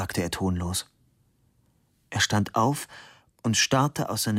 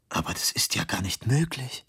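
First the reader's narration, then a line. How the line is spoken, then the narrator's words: Whispered. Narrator (German): flüsterte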